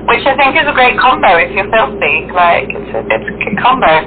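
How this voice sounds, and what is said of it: Very posh British accent. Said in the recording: “You have this, like, posh accent ... I have a very British accent. It makes me sound quite posh ... Even the British accent is definitely very posh”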